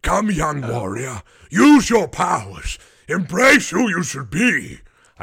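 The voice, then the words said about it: Old authoritative wizard voice. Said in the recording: “I just love doing an old wizard voice ... mine is like an old wizard voice ... I just love like an old authoritative voice.”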